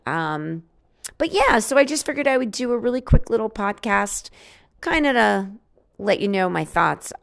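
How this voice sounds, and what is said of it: Slightly hoarse voice. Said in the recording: “my allergies are in full force, making me a little hoarse.”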